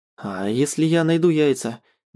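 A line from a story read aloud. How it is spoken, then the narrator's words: Hesitant. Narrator (Russian): Неуверенно предлагаю ей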